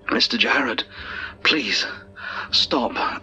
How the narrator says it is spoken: begged as my legs started to seize up

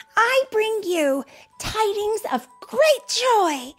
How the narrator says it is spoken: she shouted

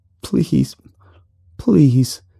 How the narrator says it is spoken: the man whimpered

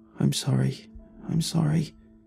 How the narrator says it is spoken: All she could mumble was

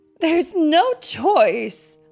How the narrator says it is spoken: Mama Wolf sighed

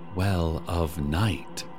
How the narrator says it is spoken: they began whispering

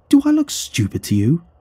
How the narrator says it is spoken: the surgeon exclaimed

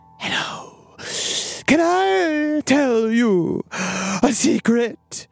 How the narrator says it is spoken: he said in a panting, eerie voice, not unlike Peter Lorre's

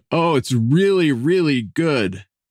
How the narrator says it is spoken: with my mouth absolutely overflowing, sounding like a drunken man, moaning with almost sexual ecstasy, I shouted

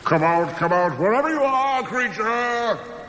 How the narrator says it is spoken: Thor bellowed

